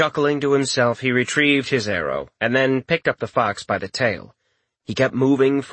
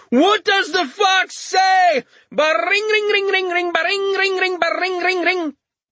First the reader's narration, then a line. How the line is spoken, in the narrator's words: He fought the impulse, but he was helpless against it and shouted